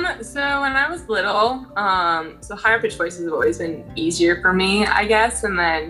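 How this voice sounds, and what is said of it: Usual voice. Nothing is said of it.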